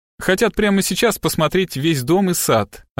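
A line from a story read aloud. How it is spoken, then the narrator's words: Plain. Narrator (Russian): ответила Леонора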